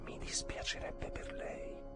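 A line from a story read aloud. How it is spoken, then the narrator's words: Whispered. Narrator (Italian): La voce dietro di lui sussurrò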